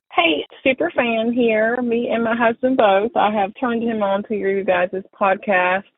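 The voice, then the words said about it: Southern American accent. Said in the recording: “especially with a Southern accent”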